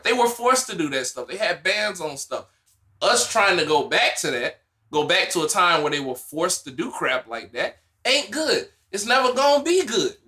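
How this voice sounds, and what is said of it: Strong American country accent. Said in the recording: “your country accent is kicking in super hard”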